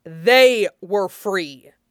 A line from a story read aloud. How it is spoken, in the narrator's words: Fenris snapped